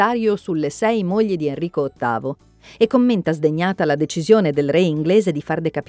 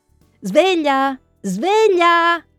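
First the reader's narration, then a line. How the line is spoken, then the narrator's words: Shouting. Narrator (Italian): Lui lancia un grido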